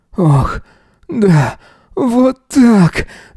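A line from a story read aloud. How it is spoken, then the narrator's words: Contented moaning. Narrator (Russian): довольно стонал Эзра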